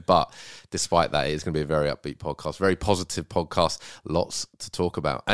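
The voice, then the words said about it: Rough, under-the-weather voice. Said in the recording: “I'm feeling a little bit rough this morning... You might be able to hear it in my voice a little bit.”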